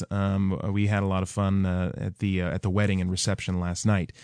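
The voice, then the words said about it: Haggard, rough voice with a cold. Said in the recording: “my voice is a little bit extra haggard in addition to my cold”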